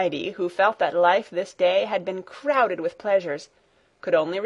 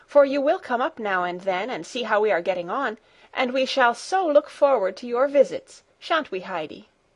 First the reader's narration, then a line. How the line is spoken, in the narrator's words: Clara called out